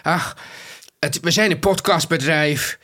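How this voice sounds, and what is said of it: Imitated Emmen/Twente Dutch accent. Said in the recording (Dutch): “Oh ja, zo praat ze. Treffende imitatie. ... haar Emmense accent... wat wij geloof ik meestal als een Twents accent”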